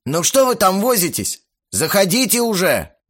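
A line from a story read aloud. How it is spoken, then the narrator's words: Shout. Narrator (Russian): крикнул Макс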